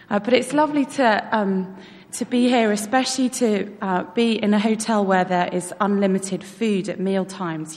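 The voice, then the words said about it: British accent. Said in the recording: “my mother is British, so hence the accent”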